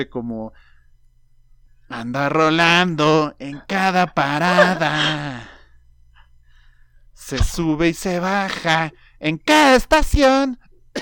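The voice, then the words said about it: Imitates another person's singing voice. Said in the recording (Spanish): “Hasta tosí. Y esa fue mi mejor imitación de Alex Lora.”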